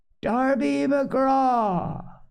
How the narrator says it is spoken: it wailed, for that is the word that best describes the sound

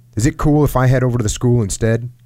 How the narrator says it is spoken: Kim asked

